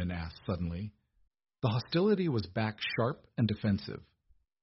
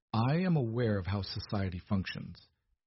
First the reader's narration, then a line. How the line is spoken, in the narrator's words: Edmund said coldly